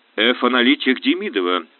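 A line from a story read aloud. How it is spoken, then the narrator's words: Dry repetition. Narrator (Russian): сухо повторил главный оператор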